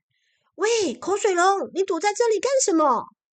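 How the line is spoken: Shouting. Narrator (Chinese): 大象首先朝着他大喊

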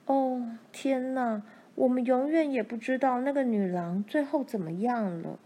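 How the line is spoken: Lamenting. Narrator (Chinese): 玛丽悲叹着说

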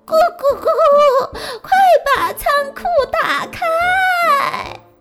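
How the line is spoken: Hen shouting. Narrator (Chinese): 老母鸡大喊

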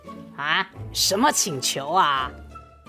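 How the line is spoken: Low voice. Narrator (Chinese): 狐狸低声说

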